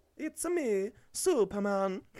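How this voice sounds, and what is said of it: Imitates Mario character voice. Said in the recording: “do his Mario voice”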